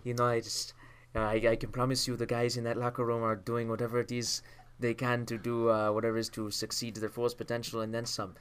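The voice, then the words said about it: Imitates another person's voice. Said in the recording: “your Eric Carlson impression ... it's pretty good.”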